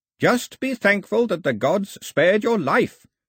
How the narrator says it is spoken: shouted the old man

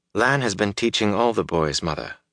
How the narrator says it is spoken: Moraine replied calmly

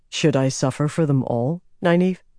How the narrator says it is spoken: asked quietly

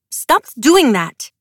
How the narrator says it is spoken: she snapped

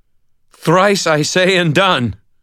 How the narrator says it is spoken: I gasped, forcing the words out in a defiant scream

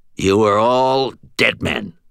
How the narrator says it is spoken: Aristides snarled

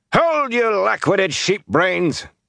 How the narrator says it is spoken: Tam shouted

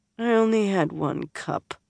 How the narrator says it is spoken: Elaine muttered

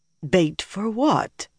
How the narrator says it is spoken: Nynaeve asked shakily

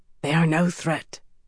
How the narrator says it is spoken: whispered Hyrn, crouching

